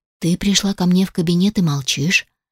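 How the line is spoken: Dry remark. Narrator (Russian): сухо заметил Алишер

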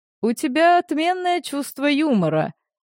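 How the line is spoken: Laughing. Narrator (Russian): рассмеялся я

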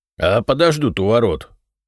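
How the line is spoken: Grumbled. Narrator (Russian): буркнул Кузьма Петрович

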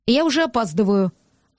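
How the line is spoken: Irritated, curt. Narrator (Russian): раздраженно бросил Гордон

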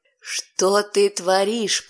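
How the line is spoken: Hissing into ear. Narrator (Russian): прошипел он мне на ухо

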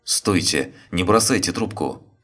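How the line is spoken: Shouting. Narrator (Russian): закричал Сергей

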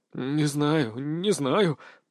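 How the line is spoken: Muttered. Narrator (Russian): пробормотал Ларс

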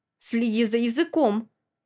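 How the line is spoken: Angry snap. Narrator (Russian): зло огрызается Арт

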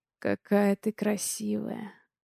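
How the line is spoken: Low, growling voice. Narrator (Russian): говорит он низким, почти рычащим голосом

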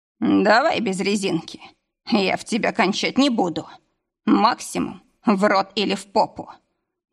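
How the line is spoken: Ugly hoarse voice. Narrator (Russian): добавил безобразно хриплым тоном

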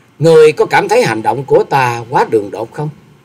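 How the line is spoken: Young woman, smiling. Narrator (Vietnamese): Bạch y thiếu nữ mỉm cười rồi nói

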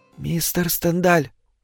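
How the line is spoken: Whispered. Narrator (Russian): шепотом

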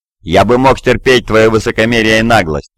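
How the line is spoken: Growl. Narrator (Russian): прорычал Бел Ашарет

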